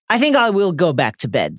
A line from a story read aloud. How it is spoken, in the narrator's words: Snape said curtly